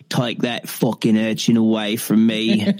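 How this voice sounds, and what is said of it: Put-on British accent. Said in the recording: “Can you do a British accent? See the best you can.”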